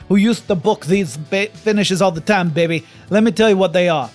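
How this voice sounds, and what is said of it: Dusty Rhodes impression. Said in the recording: “Like with that accent? ... That's the American dream Dusty Rhodes. That's how he talked.”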